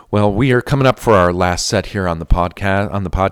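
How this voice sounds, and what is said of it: New Hampshire accent. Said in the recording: “I sound like I'm from New Hampshire. My New Hampshire accent came out there.”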